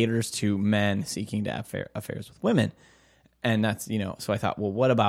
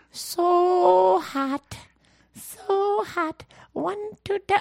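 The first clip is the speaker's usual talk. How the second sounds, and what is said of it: Imitates a movie character's voice. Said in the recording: “your Billy Madison impression”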